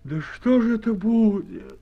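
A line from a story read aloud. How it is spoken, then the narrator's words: Woman sighing, overwhelmed. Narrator (Russian): вздохнула, не выдержав, какая-то из баб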